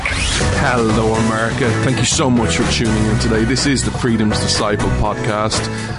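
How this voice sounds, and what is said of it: Irish accent. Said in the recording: “This Irish man stands with America ... you come for the accent”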